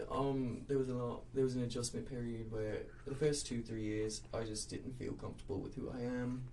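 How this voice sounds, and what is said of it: English accent. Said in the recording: “I gave myself an English accent”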